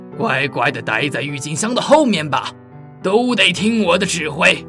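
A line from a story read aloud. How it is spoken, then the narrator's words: Furious roar. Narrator (Chinese): 他怒吼着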